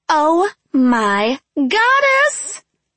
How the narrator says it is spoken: Annette screeched

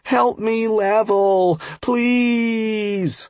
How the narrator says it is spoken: whined the antsy noob again

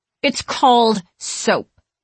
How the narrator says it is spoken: Katie says through gritted teeth

